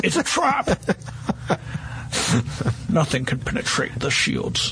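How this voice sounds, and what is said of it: Bad Admiral Akbar impression. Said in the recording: “That was terrible. That was like the world's worst Admiral Akbar accent.”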